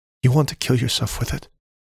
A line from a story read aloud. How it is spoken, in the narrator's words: she whispered